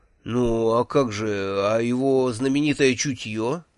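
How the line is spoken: Hesitant objection. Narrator (Russian): неуверенно возразил я

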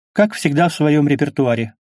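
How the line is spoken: Snorting. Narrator (Russian): хмыкнула она

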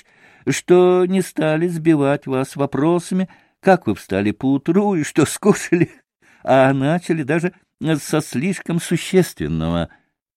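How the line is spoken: Laughing reply. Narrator (Russian): Отозвался все, продолжая смеяться, Николай Парфенович

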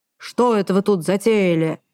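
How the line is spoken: Sudden booming voice. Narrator (Russian): Внезапно прогремевший сзади трубный глаз

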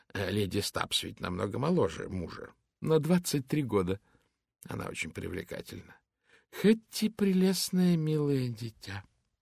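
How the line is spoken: Calm. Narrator (Russian): спокойно сказала миссис Фолиат

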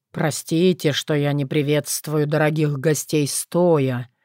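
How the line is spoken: Prince's weak, enchanting voice. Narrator (Russian): слабым, чарующим голосом начал королевич

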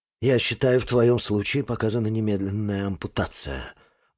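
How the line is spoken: Muttering. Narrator (Russian): бормочет Андрей Тимофеевич

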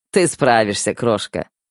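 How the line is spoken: Chuckling. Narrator (Russian): хохотнул Седой

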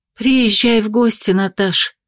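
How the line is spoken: Sighing woman. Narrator (Russian): вздохнула собеседница

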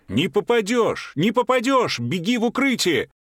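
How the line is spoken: Shouting. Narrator (Russian): Ему кричали

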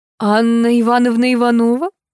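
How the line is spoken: Purring soprano. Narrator (Russian): замурлыкала сопрано

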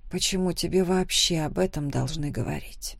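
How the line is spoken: Quiet reply. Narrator (Russian): Тихо ответила я

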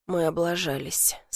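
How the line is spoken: Quiet speech. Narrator (Russian): сказал он тихо

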